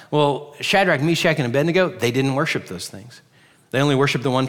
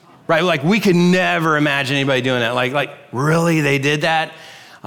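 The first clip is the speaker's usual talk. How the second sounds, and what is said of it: Sarcastic tone. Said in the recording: “I'm being sarcastic”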